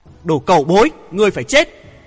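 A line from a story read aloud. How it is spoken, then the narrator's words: Loud, furious yell. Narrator (Vietnamese): Hoàng Thượng Chí máu huyết căng thẳng, cả tiếng hét to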